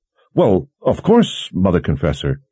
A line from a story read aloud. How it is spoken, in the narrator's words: he stammered